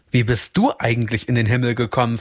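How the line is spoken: Plain question. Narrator (German): fragte er

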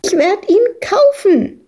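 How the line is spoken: Shrieking over others. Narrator (German): kreischte Madita dagegen an

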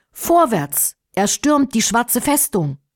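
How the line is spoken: Loud commanding call. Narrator (German): Firuz, der tapfere Anführer des Menschenheeres, rief laut

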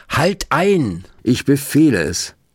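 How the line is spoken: Shouted command. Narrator (German): rief Rabbi Löw

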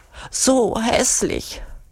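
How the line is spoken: Whining lament. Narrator (German): jammert Urugulla

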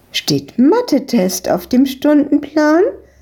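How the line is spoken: Called out. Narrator (German): rief die Besitzerin von der Eisdiele ihnen zu

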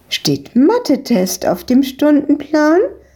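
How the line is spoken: Called out. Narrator (German): rief die Besitzerin von der Eisdiele ihnen zu

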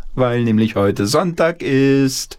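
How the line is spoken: Grandmother calling out. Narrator (German): rief die Oma ins Bad

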